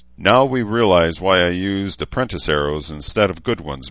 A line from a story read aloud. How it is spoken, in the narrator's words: Malcolm said dryly